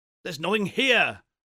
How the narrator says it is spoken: exclaimed Houston

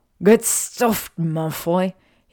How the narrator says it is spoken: he said through gritted teeth

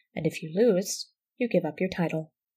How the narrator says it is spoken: said Joseph evenly

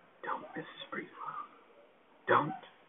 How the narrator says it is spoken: she was whispering

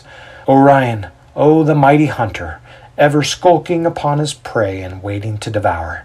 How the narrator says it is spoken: he sighs

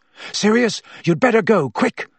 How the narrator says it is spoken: Harry panted

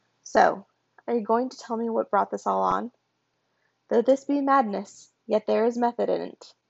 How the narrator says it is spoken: Loki quoted

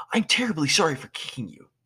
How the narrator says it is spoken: green guy said frantically

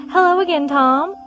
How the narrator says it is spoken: grinned brightly

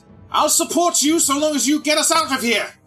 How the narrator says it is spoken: I'm going to yell down to him and say

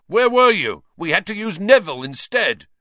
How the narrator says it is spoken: Wood was yelling

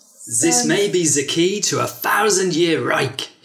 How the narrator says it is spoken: he bellowed into a microphone

